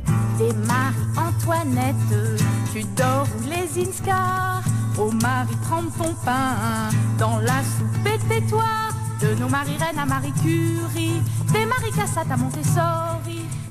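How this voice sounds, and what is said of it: Slight Parisian accent, high-pitched voice. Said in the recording (French): “le petit accent un peu bah, parisien, la voix perchée”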